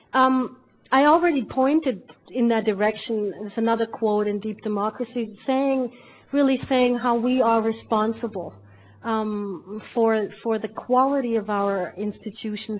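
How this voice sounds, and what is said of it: Strained, failing hoarse voice. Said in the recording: “my voice is going”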